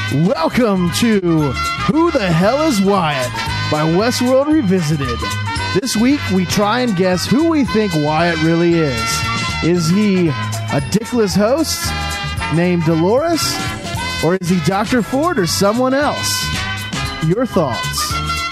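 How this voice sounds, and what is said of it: Game show host voice. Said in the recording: “That's my best game show voice.”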